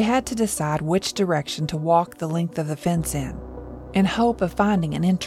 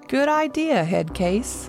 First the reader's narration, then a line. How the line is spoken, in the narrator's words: Danny laughed